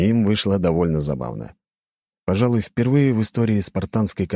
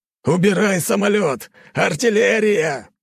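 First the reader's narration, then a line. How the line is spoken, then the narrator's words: Shouted. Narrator (Russian): кричал мне майор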